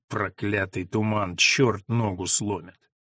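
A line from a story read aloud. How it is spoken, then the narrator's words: Grumbling drowned by choir. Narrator (Russian): Звуки хора в сопровождении органа заглушили его ворчание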